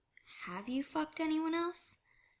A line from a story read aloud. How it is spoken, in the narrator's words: Scott asks quietly